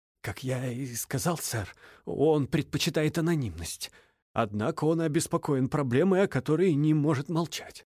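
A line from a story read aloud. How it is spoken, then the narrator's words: Whisper. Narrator (Russian): продолжал шепотом информатор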